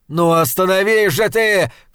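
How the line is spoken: Shouting. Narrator (Russian): кричал он

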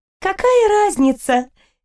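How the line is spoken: Cheerful snort. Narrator (Russian): весело фыркнула Аниль

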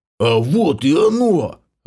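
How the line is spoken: Growled, half-orc. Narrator (Russian): рыкнул полуоргбом

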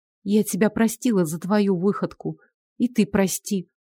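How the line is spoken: Mumbling. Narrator (Russian): пробормотала она

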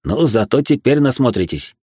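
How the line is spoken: Wry snort. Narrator (Russian): хмыкнул я

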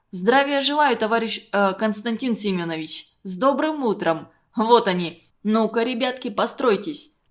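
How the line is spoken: Barking like commanding soldiers. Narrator (Russian): Начал он и вдруг, словно командовал по меньшей мере, ротой солдат гаркнул

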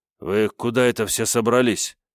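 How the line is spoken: Sleepy hoarse question. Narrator (Russian): спросил я хриплым спросонья голосом

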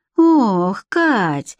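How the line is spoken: Sighing. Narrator (Russian): вздохнула Настена

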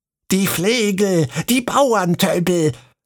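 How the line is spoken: Shouted. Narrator (German): schrie

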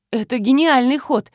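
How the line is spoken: Exclamation. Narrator (Russian): воскликнула я

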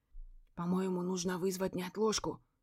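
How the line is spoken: Worried whisper. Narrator (Russian): шепотом поделился со мной и своими опасениями Гарик

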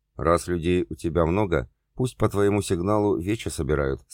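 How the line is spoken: Plain. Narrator (Russian): сказала ведунья

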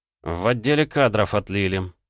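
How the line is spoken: Grumbled mutter. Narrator (Russian): буркнул я

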